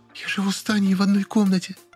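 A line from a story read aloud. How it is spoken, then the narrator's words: Whisper. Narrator (Russian): прошептала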